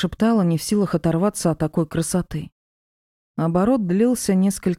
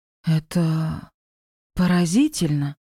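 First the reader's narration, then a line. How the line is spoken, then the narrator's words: Breathless exclamation. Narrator (Russian): Выдохнула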